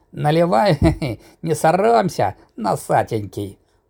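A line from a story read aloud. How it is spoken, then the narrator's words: Giggling agreement. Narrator (Russian): Дробно хихикая, поддержал приятеля Батон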